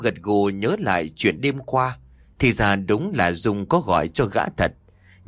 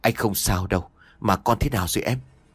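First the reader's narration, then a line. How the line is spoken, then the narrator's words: Gentle and soft. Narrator (Vietnamese): Lâm nhẹ nhàng nói ra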